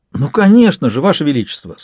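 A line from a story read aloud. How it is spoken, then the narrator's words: Enthusiastic exclamation. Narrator (Russian): с энтузиазмом воскликнула она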